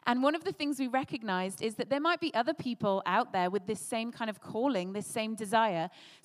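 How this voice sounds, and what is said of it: British English accent. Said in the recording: “that church was birthed in the UK, which is where we're from, hence the accents”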